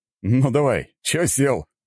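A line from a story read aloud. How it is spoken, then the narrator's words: Snorting. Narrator (Russian): хмыкнул Есенин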